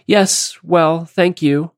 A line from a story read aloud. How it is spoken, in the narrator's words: say nervously